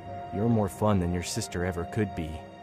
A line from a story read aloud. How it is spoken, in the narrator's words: whispered, his breath hot against my ear